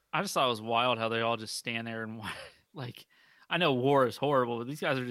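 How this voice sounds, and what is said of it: Usual voice. Nothing is said of it.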